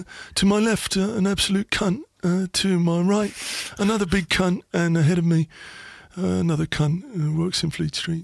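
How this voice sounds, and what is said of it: Impression of Neil Ashton. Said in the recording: “what's your best impression? ... Or Neil Ashton, Sunday supplement here. Neil Ashton. ... That's good as well.”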